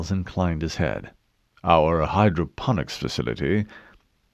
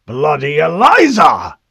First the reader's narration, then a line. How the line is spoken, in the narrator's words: shouted